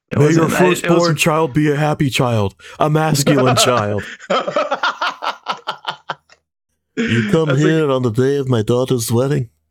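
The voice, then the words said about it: Imitates another person's voice. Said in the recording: “That's a good impression ... impressions on Godfather ... I love doing the Brando thing”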